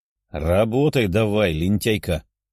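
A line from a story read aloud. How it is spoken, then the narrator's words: Growled command. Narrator (Russian): рыкнула Даша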